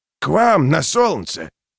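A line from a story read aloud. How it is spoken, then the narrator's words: Good-natured chuckle. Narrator (Russian): Клевер добродушно хохотнул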